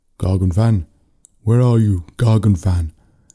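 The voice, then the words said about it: Deep, loud commanding voice. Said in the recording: “call out in a deep voice that seemed to give him authority over everything else. It was deep and loud.”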